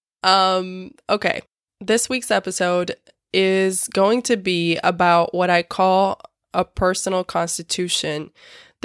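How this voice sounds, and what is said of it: Terrible, sick-sounding voice. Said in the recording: “my voice is terrible. I'm sick, as you can probably tell.”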